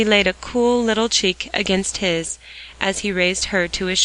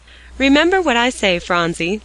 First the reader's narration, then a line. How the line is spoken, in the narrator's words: laughed Mr